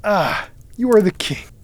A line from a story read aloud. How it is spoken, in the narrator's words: I cried